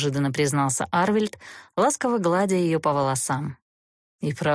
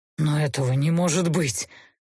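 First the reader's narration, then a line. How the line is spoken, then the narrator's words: Unhappily forced out. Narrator (Russian): несчастно выдавил Гейверт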